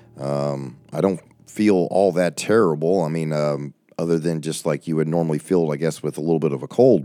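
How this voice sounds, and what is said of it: Strained, struggling voice. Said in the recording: “my voice is still struggling ... my voice has been really struggling tonight”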